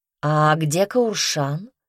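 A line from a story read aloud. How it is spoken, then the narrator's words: Plain. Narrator (Russian): спросила она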